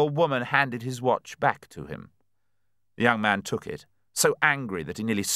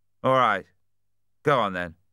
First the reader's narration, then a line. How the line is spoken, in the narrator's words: said roughly